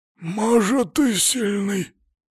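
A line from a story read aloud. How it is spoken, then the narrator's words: Necromancer's hoarse wheeze. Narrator (Russian): просипел некромант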